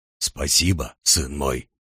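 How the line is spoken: Low hoarse voice. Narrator (Russian): изрек тот низким простуженным голосом

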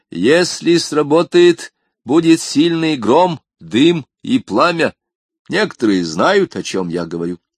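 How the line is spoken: Loud. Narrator (Russian): громко сказал

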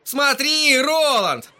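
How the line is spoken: Piercing shout. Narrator (Russian): пронзительно крикнул Эдди

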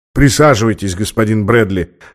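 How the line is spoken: Calm officer. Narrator (Russian): сказал спокойно офицер

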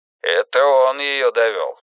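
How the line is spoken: Grim. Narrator (Russian): мрачно заявил МакКэндлс

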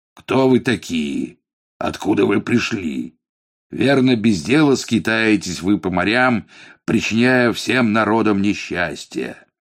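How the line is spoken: Rough thunderous question. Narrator (Russian): грубо спросил громовым голосом

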